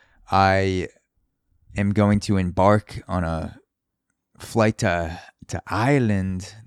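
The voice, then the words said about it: Odd put-on accent. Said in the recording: “That is not the Irish accent, so I don't know why I said it like that.”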